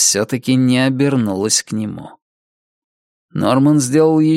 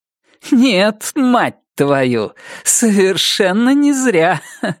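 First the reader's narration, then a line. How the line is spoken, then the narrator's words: Dismissive laugh. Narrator (Russian): проговорила она и пренебрежительно хохотнула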